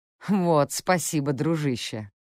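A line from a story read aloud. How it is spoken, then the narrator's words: Sarcastic exclamation. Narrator (Russian): язвительно воскликнул он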